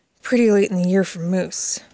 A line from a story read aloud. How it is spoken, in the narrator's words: the youngest boy mumbled